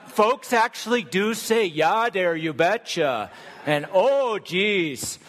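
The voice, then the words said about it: Put-on Minnesota dialect. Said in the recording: “we've also learned a little bit of the dialect up north ... if you're going to say it right, it's Minnesota”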